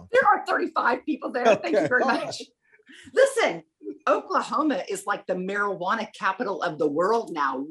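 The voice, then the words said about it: Southern American accent. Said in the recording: “my Southern accent will start coming out. ... It's already started.”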